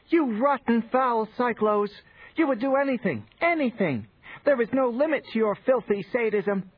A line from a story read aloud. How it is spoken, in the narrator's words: The tall map screamed